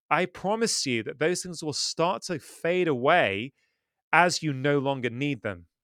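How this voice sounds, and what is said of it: British English accent. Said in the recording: “Comes from the UK, as you could hear from his accent”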